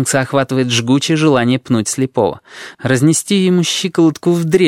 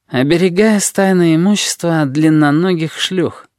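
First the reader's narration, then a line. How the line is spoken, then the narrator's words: Gloomy reply. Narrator (Russian): мрачно отвечает сфинкс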